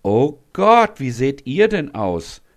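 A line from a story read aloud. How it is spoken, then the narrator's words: Horrified cry. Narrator (German): ruft Beate entsetzt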